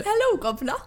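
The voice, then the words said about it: Put-on British accent. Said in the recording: “Do your best British accent right now.”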